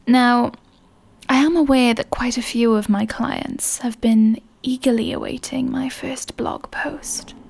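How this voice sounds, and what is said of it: Seductive British accent. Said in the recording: “my seductive British accent”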